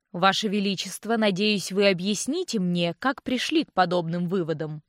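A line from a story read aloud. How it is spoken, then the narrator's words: Plain question. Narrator (Russian): спросила Акларион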